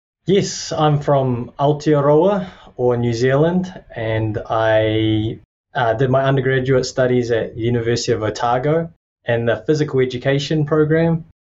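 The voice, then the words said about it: New Zealand accent. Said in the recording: “that Kiwi accent”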